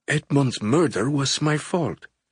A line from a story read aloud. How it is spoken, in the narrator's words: she whispered, her deep brown eyes welling with tears